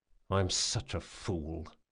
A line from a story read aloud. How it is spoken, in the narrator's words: he muttered